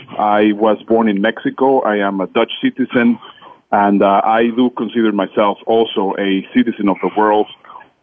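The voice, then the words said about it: Non-native English accent. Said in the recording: “you will hear in my accent, English is not my first language”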